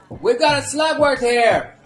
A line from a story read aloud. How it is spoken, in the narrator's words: Alberto shouted